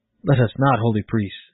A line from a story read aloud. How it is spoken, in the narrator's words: exclaimed the mother